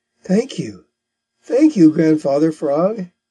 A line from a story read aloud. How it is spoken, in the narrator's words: said he